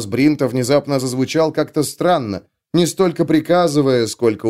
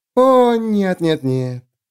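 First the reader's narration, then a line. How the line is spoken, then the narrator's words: Purring. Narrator (Russian): промурлыкала судья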